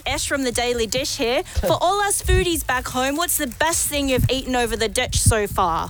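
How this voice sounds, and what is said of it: Put-on New Zealand accent. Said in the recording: “that was a New Zealand accent”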